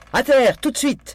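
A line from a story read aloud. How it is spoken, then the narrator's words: Screamed. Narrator (French): hurla Daisy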